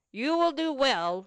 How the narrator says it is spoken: replied Augustus roughly

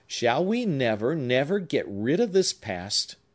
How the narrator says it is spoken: cried he, keeping up the earnest tone of his preceding conversation

